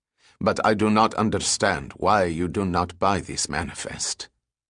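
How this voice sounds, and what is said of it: Coarse Arab accent. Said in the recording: “the Arab replied in a coarse accent.”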